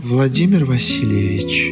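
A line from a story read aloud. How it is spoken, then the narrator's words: Muffled, calling voice. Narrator (Russian): глухо проговорила Евлампия, как бы отзывая его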